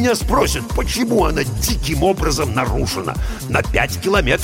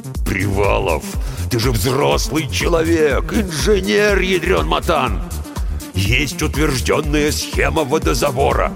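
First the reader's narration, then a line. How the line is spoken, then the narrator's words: Growling. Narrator (Russian): прорычал бригадир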